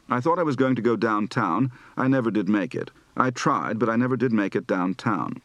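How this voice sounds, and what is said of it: Southern accent, lengthened diphthongs, rising tones. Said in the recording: “Southern accent practice for both lengthened diphthongs and rising final tones”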